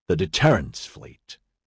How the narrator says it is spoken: Casimir said bitterly

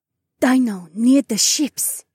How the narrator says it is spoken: she said, quieter than a whisper

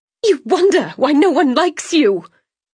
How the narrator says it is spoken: she spat

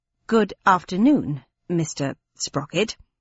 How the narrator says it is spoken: she said coldly

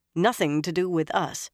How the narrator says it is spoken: Nynaeve said firmly

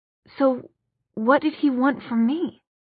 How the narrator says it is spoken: Clary demanded in a shaking voice

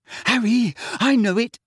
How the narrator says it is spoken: someone panted from behind him

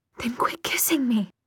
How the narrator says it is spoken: she gasped

